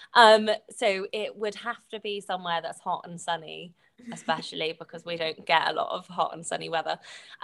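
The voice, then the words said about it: British accent. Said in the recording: “you can probably tell from my accent. So I'm British.”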